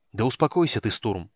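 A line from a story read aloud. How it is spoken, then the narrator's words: Irritated sharp rebuke. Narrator (Russian): раздраженно осадил его полуэльф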